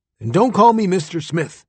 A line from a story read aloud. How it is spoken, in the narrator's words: barked